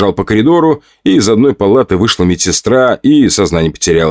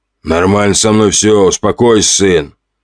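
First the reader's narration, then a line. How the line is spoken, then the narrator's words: Old man grumbling. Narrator (Russian): Ворчал старик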